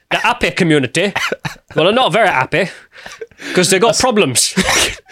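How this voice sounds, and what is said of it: Four Lions-style put-on accent. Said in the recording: “That's proper Four Lions accent there”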